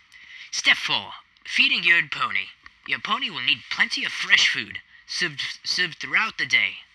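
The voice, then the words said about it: Put-on accent. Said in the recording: “try a new voice. Let's try a bit of an accent,”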